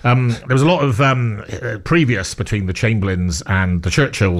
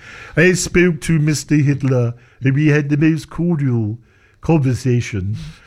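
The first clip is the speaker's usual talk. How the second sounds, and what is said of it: Neville Chamberlain impression. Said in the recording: “talking like this ... This is my impression of Neville Chamberlain”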